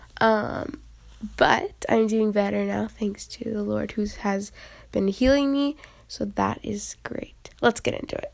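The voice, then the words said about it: Congested, slightly funny-sounding voice. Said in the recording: “if you hear my voice is a little funny, it's because I had a bit of a runny nose”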